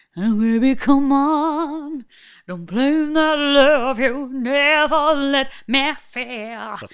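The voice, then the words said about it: Mumbled imitation of a singer's voice. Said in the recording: “She genuinely sounds like she's eating a Yorkshire pudding ... doing an Anastasia impression”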